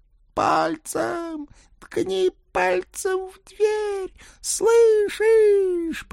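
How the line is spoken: Squeaky little voice. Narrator (Russian): пропищал лилипутик

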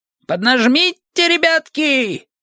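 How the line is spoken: Shouted. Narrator (Russian): крикнул епископ Бата и Уэлса

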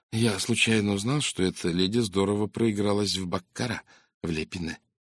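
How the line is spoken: Plain. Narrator (Russian): сказал Фурнье

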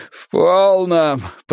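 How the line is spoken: Moaning. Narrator (Russian): простонал Симон

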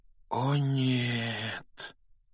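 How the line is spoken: Quiet. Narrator (Russian): тихо произнес Рон

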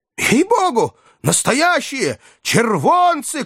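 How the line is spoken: Joyful distant crowd shouting. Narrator (Russian): кричали с галерки радостно

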